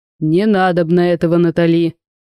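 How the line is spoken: Stern interruption. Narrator (Russian): оборвал ее строго Огарёв

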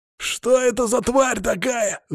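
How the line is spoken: Yelling. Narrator (Russian): заорал один из выживших вольных

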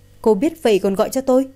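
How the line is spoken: Angry incredulous laugh. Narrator (Vietnamese): Tần Thủy San tức đến bật cười

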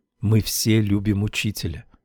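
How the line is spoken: Whisper. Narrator (Russian): Вдруг одна из них шепнула мне

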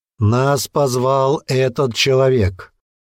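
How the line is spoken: Loud. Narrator (Russian): громко сказал он

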